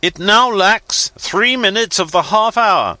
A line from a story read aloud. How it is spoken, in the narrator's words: shouted the captain